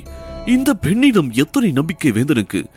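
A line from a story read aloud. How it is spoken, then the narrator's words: Asking oneself repeatedly. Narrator (Tamil): என்று தனக்குள் பலமுறை கேட்டுக்கொண்டார்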